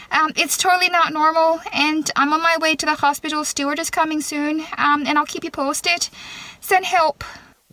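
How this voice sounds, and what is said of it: Irish accent, not overdone. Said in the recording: “all of a sudden I was talking in an Irish accent ... I just did a job interview in an Irish accent ... she's doing a good job, because she's not overselling the accent”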